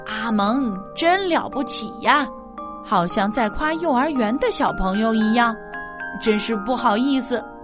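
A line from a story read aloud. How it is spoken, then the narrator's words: Loud woman. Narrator (Chinese): 收款台的胖阿姨大声说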